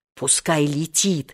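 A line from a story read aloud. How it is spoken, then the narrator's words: Fierce whisper. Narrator (Russian): свирепо шепнул Сережа Вольке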